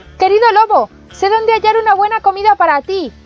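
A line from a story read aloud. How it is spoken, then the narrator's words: Shouting from inside belly. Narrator (Spanish): desde el fondo de su panza se puso a gritarle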